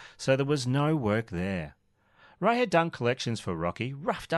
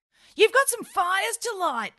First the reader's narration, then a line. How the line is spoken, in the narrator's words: yelled Steve